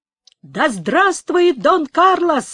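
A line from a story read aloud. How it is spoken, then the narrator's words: Exclaiming. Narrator (Russian): воскликнул Пабло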